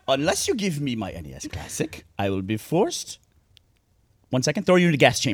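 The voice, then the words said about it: High-pitched mixed Eastern European accent. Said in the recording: “I like how your accent was Nazi. Just like you doing a higher pitched voice. ... I just turned into like every possible Eastern European accent mixed together and on helium. ... you turned into like every evil European lab like scientist.”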